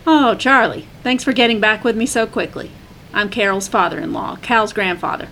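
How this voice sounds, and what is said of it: Thick Southern accent. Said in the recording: “a man with a thick southern accent answered.”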